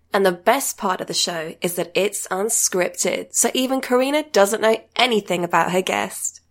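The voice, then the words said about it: British accent. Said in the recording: “Everything sounds better in a British accent.”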